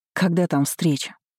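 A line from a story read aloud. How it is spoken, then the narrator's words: Tired. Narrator (Russian): спохватилась я устало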